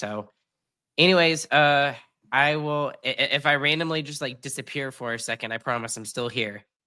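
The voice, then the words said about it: Sick, rough-sounding voice. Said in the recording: “feeling like absolute dog water ... can hear it in my voice ... you can hear it a lot in my voice, especially the last couple of days ... hacking up along and trying not to cough into the mic”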